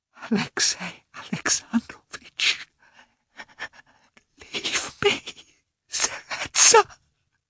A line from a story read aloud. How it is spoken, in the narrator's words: she whispered again